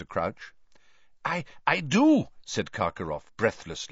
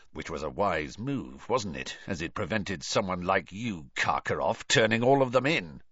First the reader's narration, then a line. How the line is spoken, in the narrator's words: muttered Moody